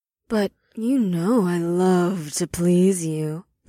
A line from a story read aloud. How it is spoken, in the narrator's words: Ash purred